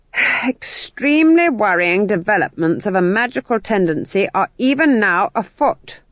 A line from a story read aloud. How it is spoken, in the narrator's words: she said loudly